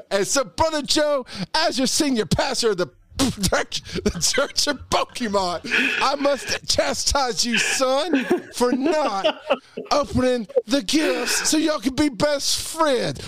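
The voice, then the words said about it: Preacher character voice. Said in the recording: “This is my preacher voice. ... preacher voice.”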